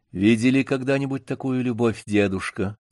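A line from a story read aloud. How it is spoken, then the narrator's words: Quiet question. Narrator (Russian): тихо спросила Вера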